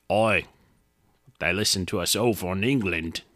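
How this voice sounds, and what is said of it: Mock British accent. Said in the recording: “My accent's probably so offensive”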